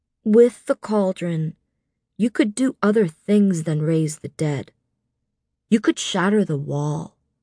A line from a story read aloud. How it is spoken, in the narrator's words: the bone carver said gently